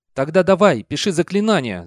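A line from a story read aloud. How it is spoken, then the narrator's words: Shouting. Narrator (Russian): закричал Мор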